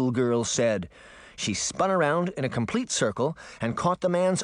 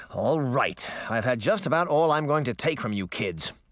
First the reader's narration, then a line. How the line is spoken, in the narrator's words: the man growled